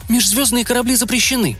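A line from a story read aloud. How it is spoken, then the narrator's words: Sharp, curt. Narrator (Russian): резко бросила она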